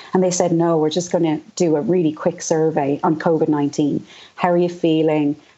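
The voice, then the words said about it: Strained, hoarse voice. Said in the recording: “I'm losing my voice because I'm talking so much over Zoom these days.”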